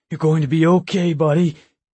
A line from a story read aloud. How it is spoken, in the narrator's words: Jack said, his voice trembling